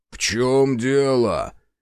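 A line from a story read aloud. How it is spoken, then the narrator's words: Offended giant's question. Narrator (Russian): обиженно спросил гигант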